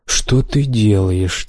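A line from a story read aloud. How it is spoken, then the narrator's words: Quiet question. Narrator (Russian): тихо спросил Рай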